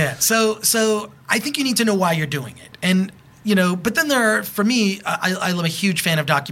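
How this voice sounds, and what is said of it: Usual voice. Nothing is said of it.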